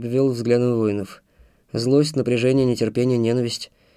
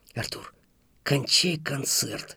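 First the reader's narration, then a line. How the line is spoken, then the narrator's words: Hissing. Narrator (Russian): прошипел Антон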